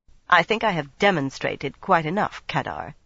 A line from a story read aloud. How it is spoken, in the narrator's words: she said coldly